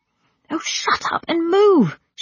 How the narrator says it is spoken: she said desperately

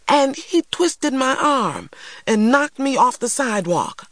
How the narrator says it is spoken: I exclaimed, unwilling to muffle

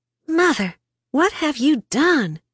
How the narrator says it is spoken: Crystal gasped

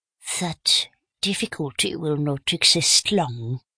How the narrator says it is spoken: pronounced Poirot quietly

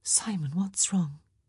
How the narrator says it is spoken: she whispered

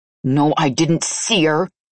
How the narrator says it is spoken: I growled as my dragon demanded release

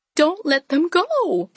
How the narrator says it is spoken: pleaded Moon Orchid

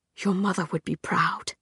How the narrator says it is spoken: he said, so quietly that even Clary, standing beside him, had to strain to hear it

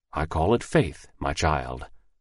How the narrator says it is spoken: the old man answered quietly

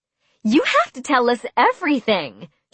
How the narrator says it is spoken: Jamie shrieked

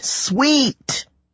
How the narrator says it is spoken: The monster hissed

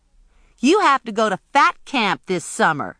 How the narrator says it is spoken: Imogene hollered at him

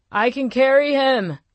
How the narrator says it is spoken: he shouted

